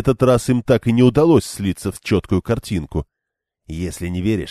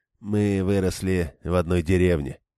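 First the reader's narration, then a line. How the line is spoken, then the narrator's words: Grumbling. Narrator (Russian): буркнул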